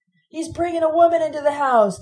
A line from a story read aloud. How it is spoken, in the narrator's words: Tom Matthew shouted